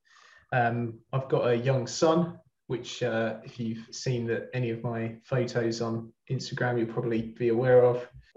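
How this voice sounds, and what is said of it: Southern English accent. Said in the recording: “I'm not from there, as you can probably tell by my accent. I'm from Brighton”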